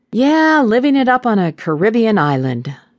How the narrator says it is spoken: she scoffed

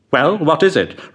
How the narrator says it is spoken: replied the other

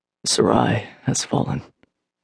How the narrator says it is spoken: Alaric said grimly

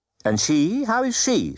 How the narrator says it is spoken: said sharply

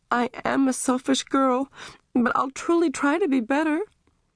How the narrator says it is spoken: Amy sobbed out

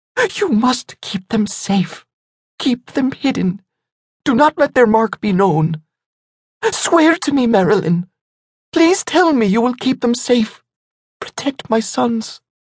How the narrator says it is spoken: Already aware of her fate, Lindell looked into her friend's soft brown eyes and pleaded desperately

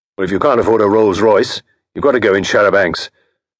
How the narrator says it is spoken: said Bristow fiercely

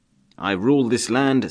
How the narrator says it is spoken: said Gessler

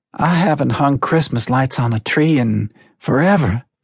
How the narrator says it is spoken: Melina breathed in excitement

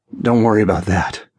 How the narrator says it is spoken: groaned, my own needs getting the better of me

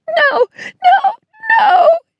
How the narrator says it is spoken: she sobbed

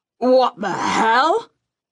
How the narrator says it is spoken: Gerald roared

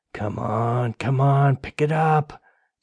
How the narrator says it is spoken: Derek muttered, feet marching up and down with nervous energy

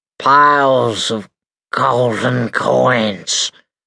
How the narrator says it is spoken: croaked old Sawbones

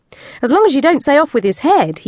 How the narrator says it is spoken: he chuckled

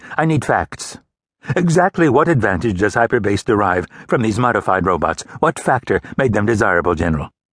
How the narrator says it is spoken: said sharply

